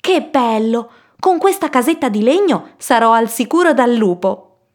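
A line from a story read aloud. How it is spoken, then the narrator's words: Exclaimed. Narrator (Italian): esclamò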